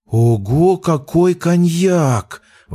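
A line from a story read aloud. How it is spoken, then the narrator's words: Large thirtyish woman exclaiming. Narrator (Russian): Воскликнула одна из них лет 30 и крупная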